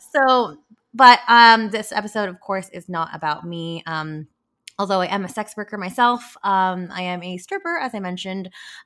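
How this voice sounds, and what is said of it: Slightly scratchy voice. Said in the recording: “my voice is a little bit scratchy”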